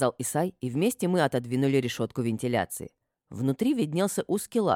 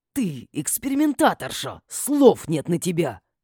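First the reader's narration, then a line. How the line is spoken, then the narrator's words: Indignant hiss. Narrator (Russian): возмущенно зашипел Матиас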